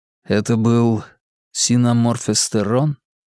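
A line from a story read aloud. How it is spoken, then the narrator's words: Quiet question. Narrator (Russian): тихо спросил я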